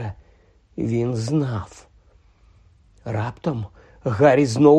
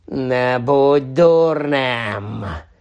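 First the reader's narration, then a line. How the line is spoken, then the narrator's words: Growling. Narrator (Ukrainian): загарчало обличчя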